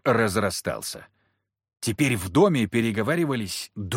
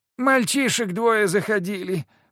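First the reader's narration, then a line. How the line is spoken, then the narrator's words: Woman's moan. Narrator (Russian): простонала с печи невидимая женщина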